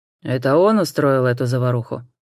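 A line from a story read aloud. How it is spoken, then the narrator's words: Menacing question. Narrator (Russian): грозно спросил констебль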